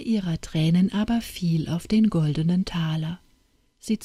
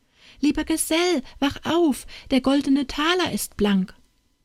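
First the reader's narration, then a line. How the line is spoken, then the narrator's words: Jubilant calling. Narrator (German): Jubelnd rief Anna Barbara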